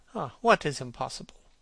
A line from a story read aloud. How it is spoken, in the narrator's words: murmured the young man